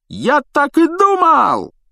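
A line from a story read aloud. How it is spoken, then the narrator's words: Joyful yell. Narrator (Russian): радостно завопил Стэн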